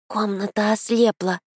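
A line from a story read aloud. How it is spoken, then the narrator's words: Slightly frightened babble. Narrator (Russian): Немного испуганно пролепетал Федя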